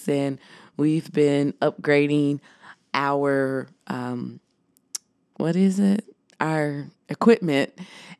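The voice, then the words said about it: Deep, husky voice from a cold. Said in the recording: “I am getting over a cold. So you know, I do got my grown and sexy voice on.”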